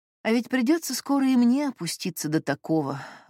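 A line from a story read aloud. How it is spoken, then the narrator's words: Sighing. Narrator (Russian): вздохнула Олеся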